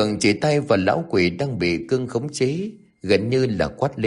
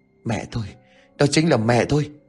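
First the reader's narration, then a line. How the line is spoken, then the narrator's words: Panting, breathless. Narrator (Vietnamese): Gã thở hổn hển mà nói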